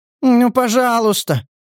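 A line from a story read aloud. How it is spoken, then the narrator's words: Pleading. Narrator (Russian): взмолился индивид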